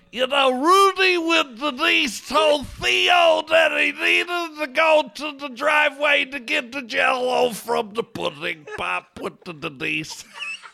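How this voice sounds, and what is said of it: Imitates another person's voice. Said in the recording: “Bill Cosby impression ... that impersonation”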